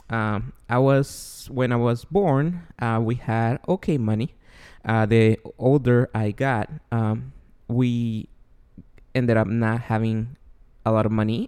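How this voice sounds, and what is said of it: Guatemalan Spanish-accented English. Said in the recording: “I was born and raised in Guatemala. Therefore, my accent and my ESL will come out here and there.”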